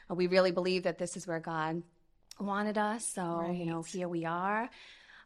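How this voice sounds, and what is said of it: Massachusetts accent. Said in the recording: “originally from Fall River, Massachusetts ... we can tell that by your accent”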